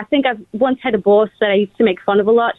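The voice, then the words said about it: Put-on Australian accent. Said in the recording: “Do the Australian one for us. ... I think that's better. ... It's really great. ... Wow. Killing it.”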